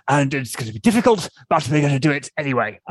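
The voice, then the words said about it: Poor imitation of another person's voice. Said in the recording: “that's my really bad Boris Johnson impression”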